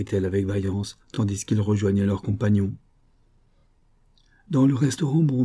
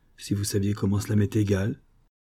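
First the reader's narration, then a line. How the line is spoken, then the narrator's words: Strangely sad voice. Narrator (French): Elle répondit d'une voix étrangement triste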